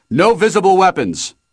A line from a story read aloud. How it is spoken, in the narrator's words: One of them shouted from out in the hallway